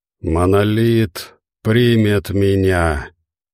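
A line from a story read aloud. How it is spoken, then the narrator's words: Hoarse rasp. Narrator (Russian): прохрипел он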